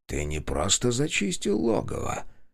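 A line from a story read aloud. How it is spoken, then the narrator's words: Quiet. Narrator (Russian): тихо произнес он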